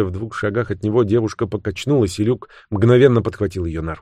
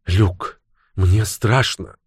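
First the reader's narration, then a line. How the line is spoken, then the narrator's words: Frightened childlike complaint. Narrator (Russian): испуганно, словно ребенок, пожаловалась она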